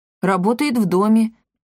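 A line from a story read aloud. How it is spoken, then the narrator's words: Wry snort. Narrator (Russian): хмыкнул Триш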